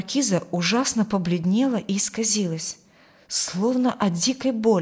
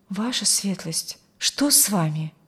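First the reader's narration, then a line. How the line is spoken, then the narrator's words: Frightened young man asking. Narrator (Russian): Испуганно спросил молодой врач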